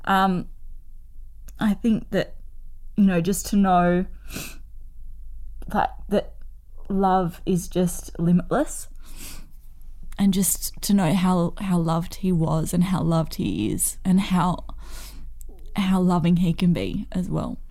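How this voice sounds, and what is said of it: Emotional, choked-up speech. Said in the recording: “Now I'm getting a bit emotional.”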